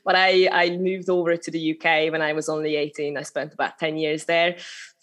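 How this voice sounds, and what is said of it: Hungarian accent. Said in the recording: “I'm originally from Hungary, so that's a little bit of accent still coming through”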